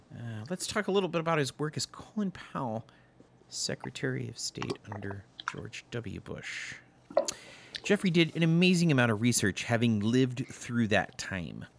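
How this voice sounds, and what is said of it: Put-on podcast host character voice. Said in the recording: “that's my Jeffrey Wright podcast voice. ... We've now created our first character on our podcast, the Jeffrey Wright podcast guy.”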